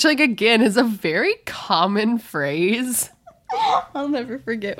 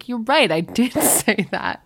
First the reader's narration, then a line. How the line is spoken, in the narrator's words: Brad's laughing and he's like